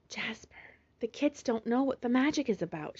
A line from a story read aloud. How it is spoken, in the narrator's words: she whispered